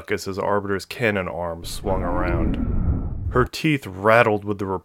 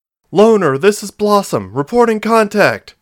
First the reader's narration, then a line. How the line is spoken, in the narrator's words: she shouted